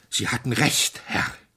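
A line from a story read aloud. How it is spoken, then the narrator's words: Panting. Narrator (German): keuchte er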